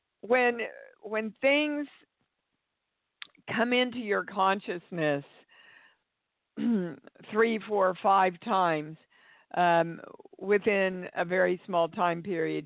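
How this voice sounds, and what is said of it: Slightly hoarse voice. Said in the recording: “I was screaming so much yesterday. My voice is a little hoarse today.”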